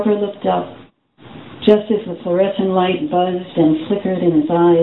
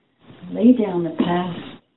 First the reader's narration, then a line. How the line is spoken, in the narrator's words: whispered